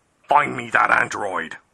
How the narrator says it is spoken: barked Walt

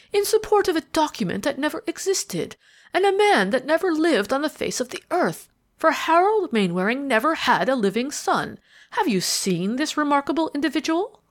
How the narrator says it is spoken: interposed Ralph Mainwaring with a sneer

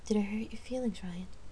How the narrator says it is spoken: Jamie asked gently

